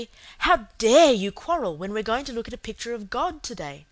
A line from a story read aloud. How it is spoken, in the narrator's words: Cecily said severely